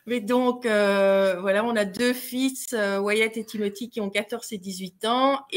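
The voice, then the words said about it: Belgian French accent. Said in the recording (French): “nous sommes belges. Je ne sais pas si vous l'avez entendu à notre accent.”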